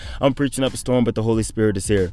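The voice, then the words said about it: Very fast speech. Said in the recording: “I'm losing my words because I'm thinking so fast. ... I'm talking so fast.”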